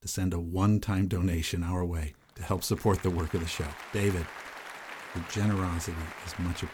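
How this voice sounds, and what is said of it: Usual voice. Nothing is said of it.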